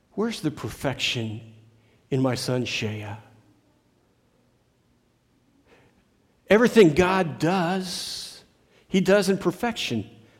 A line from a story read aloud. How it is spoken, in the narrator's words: this father said